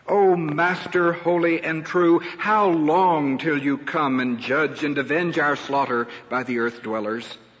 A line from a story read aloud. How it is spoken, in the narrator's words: they shouted with a loud voice